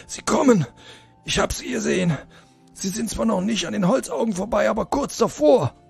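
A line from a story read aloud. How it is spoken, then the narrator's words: Panting reply. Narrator (German): antwortete keuchend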